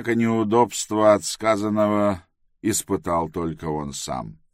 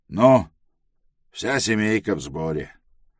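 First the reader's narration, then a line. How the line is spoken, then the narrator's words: Rough curt remark. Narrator (Russian): довольно грубо бросил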